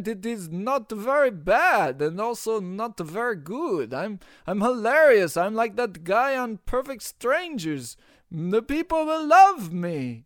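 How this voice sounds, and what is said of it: Exaggerated bad Russian accent. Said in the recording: “your Russian stereotype character ... to speak with bad Russian accent to entertain your listeners ... my hilarious Russian accent”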